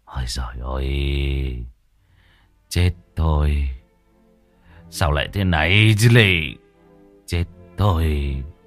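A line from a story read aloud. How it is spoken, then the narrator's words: Sighing, muttering. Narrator (Vietnamese): Ông thở dài, miệng cứ lẩm bẩm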